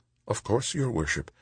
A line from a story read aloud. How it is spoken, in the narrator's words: Angelique murmured